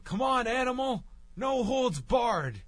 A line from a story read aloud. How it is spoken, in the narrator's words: JBL yelling